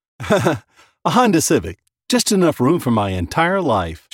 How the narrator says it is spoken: chuckled

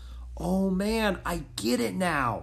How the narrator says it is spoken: Jack murmured

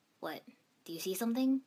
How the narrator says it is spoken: Sasuke asked uneasily

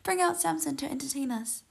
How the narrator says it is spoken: While they were in high spirits, they shouted

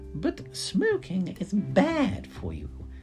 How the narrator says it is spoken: Betty exclaimed

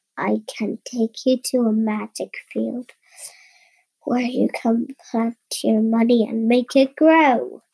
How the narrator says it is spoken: he whispered

